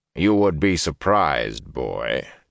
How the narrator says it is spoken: Tom said dryly

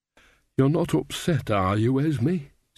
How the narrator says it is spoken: said Nanny anxiously

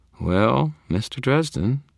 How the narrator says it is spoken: she purred

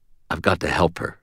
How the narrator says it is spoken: I said quietly

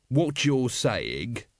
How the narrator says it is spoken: said Vimes slowly

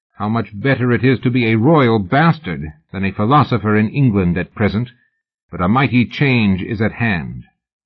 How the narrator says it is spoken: Byron to comment bitterly

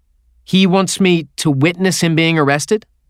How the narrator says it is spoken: I said

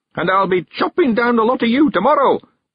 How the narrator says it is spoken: he shouted triumphantly

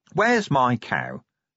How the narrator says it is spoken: he announced

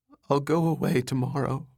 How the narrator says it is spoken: she said meekly

